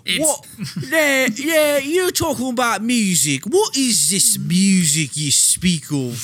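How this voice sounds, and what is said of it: Put-on accent. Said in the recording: “Solid accent.”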